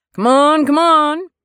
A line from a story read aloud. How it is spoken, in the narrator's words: Brad shouted again